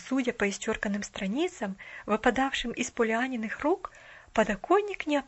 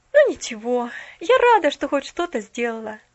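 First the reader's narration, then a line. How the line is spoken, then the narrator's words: Sighing to herself. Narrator (Russian): вздохнула она про себя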